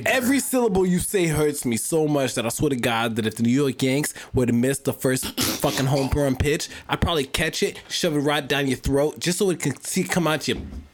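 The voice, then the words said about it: Put-on accent sounding Boston. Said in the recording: “you sound Boston. You sound Boston.”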